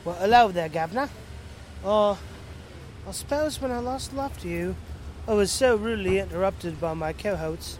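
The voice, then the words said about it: Put-on English accent. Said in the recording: “my accent is a bit different. It's English, like not the English you used to.”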